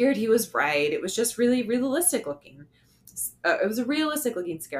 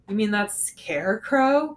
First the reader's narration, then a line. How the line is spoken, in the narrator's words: said with a chuckle